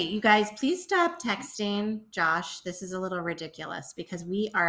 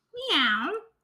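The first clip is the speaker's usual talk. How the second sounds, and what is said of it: Cat meow impression. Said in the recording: “I can also do cat impersonations.”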